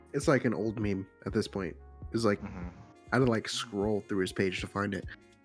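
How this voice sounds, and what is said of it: Congested, stuffy nasal voice. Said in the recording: “I'm just also really stuffy.”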